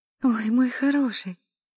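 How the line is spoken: Cooed. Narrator (Russian): проворковала Эля

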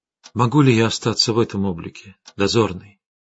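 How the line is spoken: Quiet question. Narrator (Russian): тихо спросила Арина

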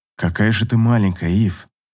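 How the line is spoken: Murmured. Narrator (Russian): Пробормотал

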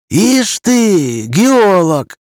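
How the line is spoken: Respectful exclamation. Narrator (Russian): уважительно воскликнул Макаров

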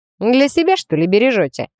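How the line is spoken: Smirking snort. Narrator (Russian): хмыкнул рыжий

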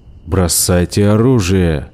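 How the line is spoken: Growling. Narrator (Russian): прорычал детина

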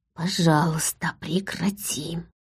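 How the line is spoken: Silent mental whisper. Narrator (Russian): мысленно прошептала

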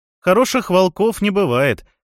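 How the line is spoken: Booming and cheerful. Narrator (Russian): зычно и весело отозвался Фафхард

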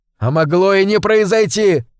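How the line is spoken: Shout. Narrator (Russian): выкрикнул я

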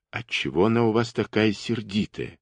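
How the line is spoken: Quiet. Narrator (Russian): тихонько спросил Ковалев у Ефимки

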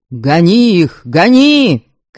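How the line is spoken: Shouts from all sides. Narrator (Russian): кричали со всех сторон

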